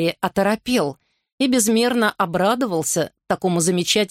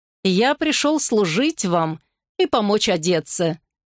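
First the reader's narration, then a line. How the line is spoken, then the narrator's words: Cheerful reply. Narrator (Russian): весело ответил Франциск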